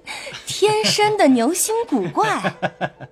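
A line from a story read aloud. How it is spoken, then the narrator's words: Group laughing. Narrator (Chinese): 众人都笑说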